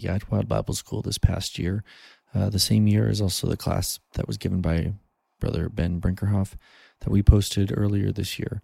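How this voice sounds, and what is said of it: Hoarse voice from a cold. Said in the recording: “You can probably still hear it in my voice a little bit. I got a cold and pretty much lost my voice”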